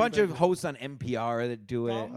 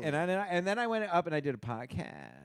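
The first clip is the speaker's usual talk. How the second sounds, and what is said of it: Vocal fry imitation. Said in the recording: “Vocal fry. ... Vocal fry. ... it's when girls. ... Mostly girls.”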